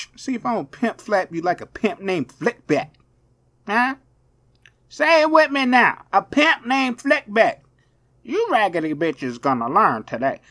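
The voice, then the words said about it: Imitates another person's voice. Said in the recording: “my Cat William impression. How I do? I didn't do too good.”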